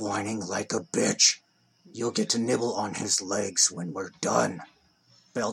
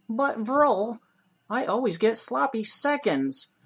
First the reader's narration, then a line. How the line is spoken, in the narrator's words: whined Lurg like a bitch